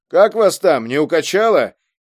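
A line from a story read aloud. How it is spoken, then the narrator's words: Shouted from the cab. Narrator (Russian): крикнул из кабины Баслов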